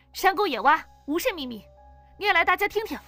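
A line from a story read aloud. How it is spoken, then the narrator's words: Stern and loud. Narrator (Chinese): 黄子红……沉着脸大声道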